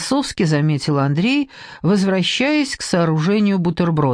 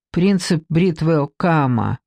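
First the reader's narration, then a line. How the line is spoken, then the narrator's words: Muffled, hollow voice. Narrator (Russian): глухо сказала Маша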